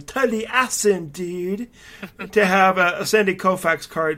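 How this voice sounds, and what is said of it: Put-on California surfer accent. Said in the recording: “That's my California accent coming through.”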